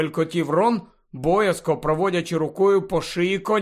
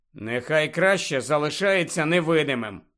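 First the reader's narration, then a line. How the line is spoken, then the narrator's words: Disapproving grumble. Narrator (Ukrainian): несхвально буркнув Гаррі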